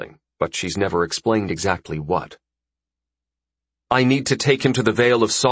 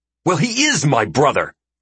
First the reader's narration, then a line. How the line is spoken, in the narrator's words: Maxis shouts up at her